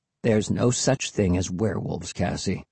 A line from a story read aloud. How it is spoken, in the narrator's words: Will muttered